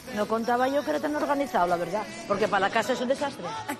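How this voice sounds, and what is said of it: Asturian Spanish accent. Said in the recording (Spanish): “Qué asturianina es, ¿eh? ... se le nota mucho en el acento. Qué acento asturiano, ¿eh?”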